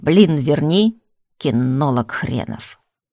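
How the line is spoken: Extremely hoarse voice. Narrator (Russian): чей-то донельзя хриплый голос произнес

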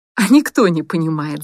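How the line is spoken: Laughing. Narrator (Russian): засмеялась Настя

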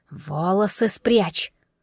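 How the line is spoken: Hiss. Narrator (Russian): прошипела

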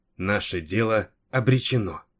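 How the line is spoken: Calm priestess. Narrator (Russian): спокойно заключила жрица

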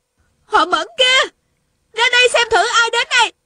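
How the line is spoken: Shouting. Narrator (Vietnamese): Tiêu Uyển Nhi la lên

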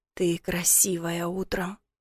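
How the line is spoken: Quiet voice. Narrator (Russian): сказал тихо

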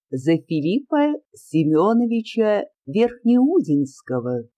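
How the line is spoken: Triumphant proclamation. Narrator (Russian): тем же торжествующим тоном провозгласила Марья Осиповна

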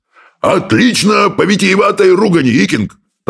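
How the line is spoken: Loud roar from doorway. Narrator (Russian): проревел с порога брехун крикливый

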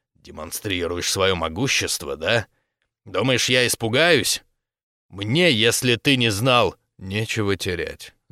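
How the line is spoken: Growled. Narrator (Russian): прорычал

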